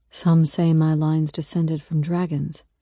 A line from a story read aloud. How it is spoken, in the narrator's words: he murmurs